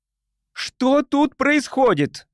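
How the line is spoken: Shouting woman. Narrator (Russian): закричала учительница биологии

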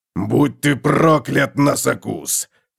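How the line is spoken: Growled. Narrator (Russian): прорычал Готрек

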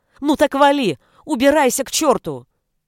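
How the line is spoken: Shouted. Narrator (Russian): Анита выкрикнула

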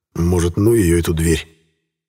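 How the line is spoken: Regretful sigh. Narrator (Russian): вздохнул не без сожаления

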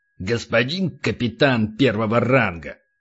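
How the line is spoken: Hissed. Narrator (Russian): прошипел полубой

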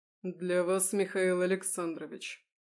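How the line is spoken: Icy, curt. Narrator (Russian): Отрезал он ледяным тоном

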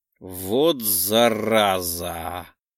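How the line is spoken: Drawled. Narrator (Russian): протянул я

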